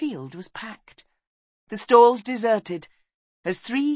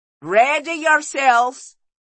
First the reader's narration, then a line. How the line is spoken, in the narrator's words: he shouted